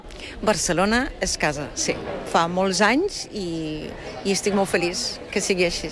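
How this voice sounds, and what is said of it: Catalan with German and Brazilian accent. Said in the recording (Catalan): “Té un català deliciós... el català que junta petits accents, petites musiquetes, petites tonalitats d'altres idiomes, agafa una cantarella, una musicalitat diferent... l'alemany i el brasiler... aquest accent barrejat en el català”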